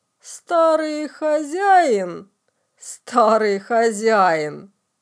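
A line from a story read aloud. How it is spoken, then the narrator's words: Mocking interruption. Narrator (Russian): Насмешливо перебил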